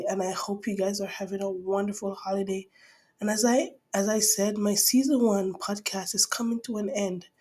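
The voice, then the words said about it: Hoarse, congested voice. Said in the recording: “My voice sounds a little bit hoarse because I've been, my sinuses has been knocking me down”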